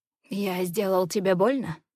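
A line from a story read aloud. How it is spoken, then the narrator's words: Hoarse question. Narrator (Russian): Хрипло интересуется он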